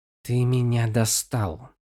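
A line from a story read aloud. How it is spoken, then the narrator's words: Hissed by shapeless creature. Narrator (Russian): прошипела бесформенная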